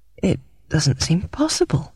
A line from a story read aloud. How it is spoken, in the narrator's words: I murmured